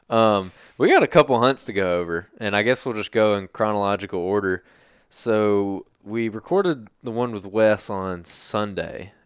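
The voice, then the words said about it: Hoarse, fading sick voice. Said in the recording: “My my voice is leaving me. I'm getting sick”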